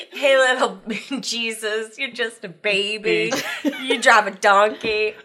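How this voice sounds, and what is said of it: Imitates another person's voice. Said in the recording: “And the Kanye one with the Christmas album.”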